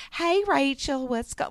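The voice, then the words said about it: Imitated cartoonish Southern man's voice. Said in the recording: “voice that sounded like ... he kind of sounded like Mr. Garrison on South Park ... burly kind of Southern guy”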